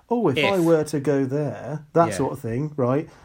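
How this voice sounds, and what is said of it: Posh accent. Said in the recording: “I don't know why I said that in a posh accent”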